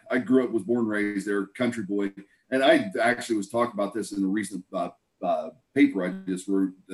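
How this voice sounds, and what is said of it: Rural Southeast Ohio accent. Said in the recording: “the accent comes from Southeast Ohio, the middle of nowhere in Ohio”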